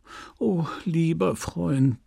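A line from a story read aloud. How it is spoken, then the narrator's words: Tender, frightened murmur. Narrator (German): murmelte zärtlich Madame Homais, erschreckt von den dunklen Gefahren, in die er sich stürzen wollte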